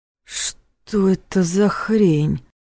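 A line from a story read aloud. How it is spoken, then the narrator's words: Shocked breathless gasp. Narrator (Russian): выдохнул парень, внезапно становясь таким же белым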